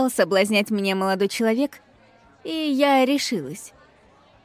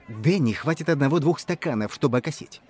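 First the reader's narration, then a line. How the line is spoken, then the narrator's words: Conspiratorial tone. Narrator (Russian): продолжал говорить парень заговорщицким тоном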